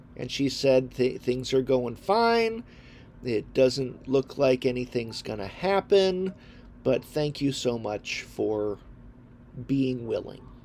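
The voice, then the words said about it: Congested, sinusy voice. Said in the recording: “I'm sure you can hear in my voice that I'm actually dealing with something. I've been dealing with a little bit of a respiratory sinus thing.”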